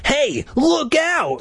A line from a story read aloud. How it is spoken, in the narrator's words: an alarm voice cried